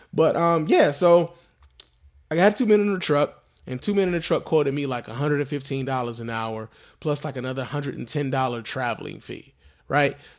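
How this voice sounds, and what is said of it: Congested voice from a cold. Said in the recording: “I'm suffering with a cold right now. So my voice is a little bit off.”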